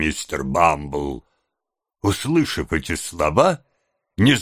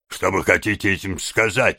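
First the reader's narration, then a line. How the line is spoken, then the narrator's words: Angry question. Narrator (Russian): сердито спросил незнакомец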